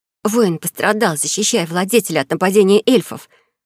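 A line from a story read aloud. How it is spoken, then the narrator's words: Snake-like hiss, girl. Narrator (Russian): Зашипела на зависть любой змее девушка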